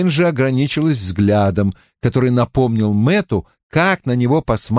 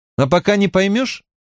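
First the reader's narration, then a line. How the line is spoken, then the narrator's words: Sterner. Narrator (Russian): прибавила Найниф еще более суровым тоном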